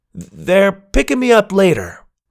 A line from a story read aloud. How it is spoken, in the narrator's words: I shouted back